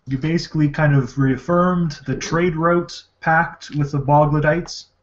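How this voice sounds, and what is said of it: Canadian accent. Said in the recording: “You sounded very Canadian there with the word route. ... He definitely sounds like he's from Canada.”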